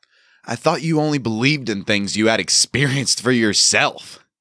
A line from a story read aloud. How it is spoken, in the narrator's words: I asked, my voice now openly amused